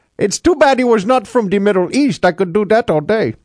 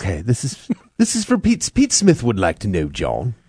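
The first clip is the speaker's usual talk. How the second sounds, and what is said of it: Put-on pretentious British accent. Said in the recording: “you got to say it in an English accent ... that's nothing like a British accent. Try to sound like a pretentious ... That sounds much better”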